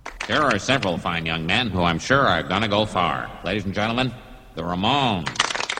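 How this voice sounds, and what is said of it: Radio announcer voice. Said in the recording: “Using radio voice.”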